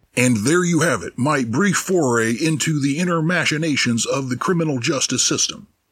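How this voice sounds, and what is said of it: Announcer voice. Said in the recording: “announcer voice”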